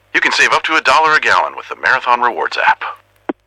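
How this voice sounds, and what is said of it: Impression of Max the Bald Eagle. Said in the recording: “do an impression of me ... That last one was pretty good”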